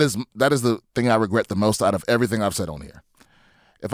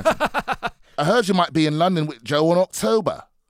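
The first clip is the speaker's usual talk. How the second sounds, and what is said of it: Poor London accent, sounds Australian. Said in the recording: “trying to do my shitty London ... That sounds very Australian.”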